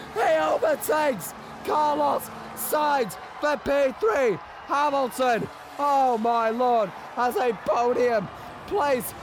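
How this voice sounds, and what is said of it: Strained, hoarse excited commentator voice. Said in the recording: “I'm losing my voice”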